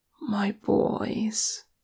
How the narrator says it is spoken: she said softly

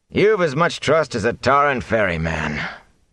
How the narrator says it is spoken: Tam sighed

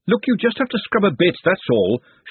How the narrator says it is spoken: she snapped after a few seconds of listless dipping

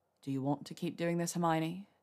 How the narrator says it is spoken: he finally asked in a low voice

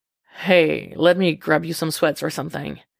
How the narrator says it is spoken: he says

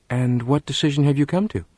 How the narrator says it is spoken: mother asked quietly

